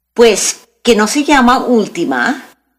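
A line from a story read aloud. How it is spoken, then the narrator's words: Plain. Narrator (Spanish): preguntó Débora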